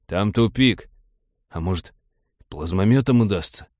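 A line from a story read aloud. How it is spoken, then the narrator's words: Cowed mumble. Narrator (Russian): съежился и промямлил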